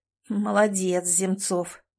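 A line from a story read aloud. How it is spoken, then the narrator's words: Grim chuckle. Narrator (Russian): мрачно усмехнулся он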